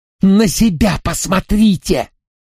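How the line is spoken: Hissed. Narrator (Russian): прошипел он

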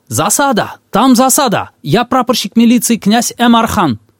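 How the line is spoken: Shouting from afar. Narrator (Russian): Он издали закричал

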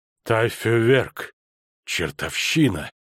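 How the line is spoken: Moan, chattering teeth. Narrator (Russian): простонал фон Швельборн, щелкая зубами

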